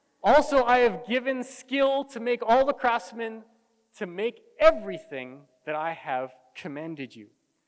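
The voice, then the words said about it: Speaks English with an accent. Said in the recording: “Because of my accent, you don't even know if I'm saying it right or wrong.”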